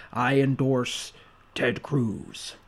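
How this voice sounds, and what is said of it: Richard Nixon impression. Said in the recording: “You just wanted to bust out your Nixon impression.”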